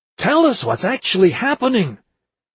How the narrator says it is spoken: Casales could not stop herself from shouting

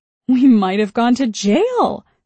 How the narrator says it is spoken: my mother said, laughing

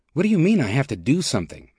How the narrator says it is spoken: Mack asked, his voice rising with impatience

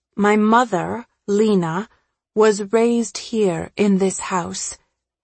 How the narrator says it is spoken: say slowly

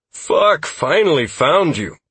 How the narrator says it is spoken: Constantine exclaimed

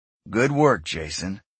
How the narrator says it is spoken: Eric said softly

